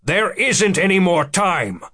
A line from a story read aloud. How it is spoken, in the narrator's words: Becker snapped